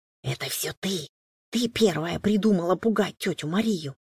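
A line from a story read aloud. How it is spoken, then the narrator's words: Whisper. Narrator (Russian): прошептал Данька сестре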